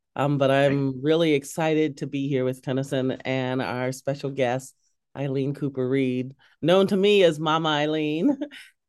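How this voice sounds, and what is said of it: Voice altered from illness. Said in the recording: “my voice is a little different than it normally is because I've been sick and I'm coming out of it.”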